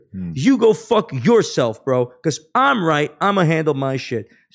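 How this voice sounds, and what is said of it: Raised angry voice. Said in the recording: “raise my voice”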